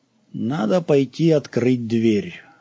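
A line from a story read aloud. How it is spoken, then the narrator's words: Level commanding voice. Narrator (Russian): ровным голосом приказал Пэсброук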